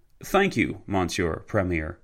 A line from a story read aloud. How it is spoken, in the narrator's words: Foch said